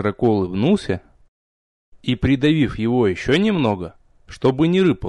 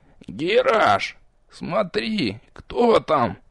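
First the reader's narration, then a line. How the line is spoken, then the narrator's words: Sudden strangled wheeze. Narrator (Russian): Вдруг придушенно прохрипел Нич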